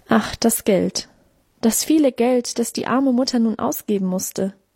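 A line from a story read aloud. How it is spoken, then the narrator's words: Mother sighing. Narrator (German): Mutter seufzte auch auf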